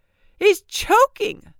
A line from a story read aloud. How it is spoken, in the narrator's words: someone yelled